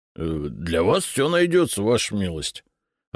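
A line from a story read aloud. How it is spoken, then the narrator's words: Confused mumbling. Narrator (Russian): Растерянно забормотал он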